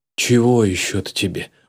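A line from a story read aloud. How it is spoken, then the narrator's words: Weary. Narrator (Russian): устало произнес Николаев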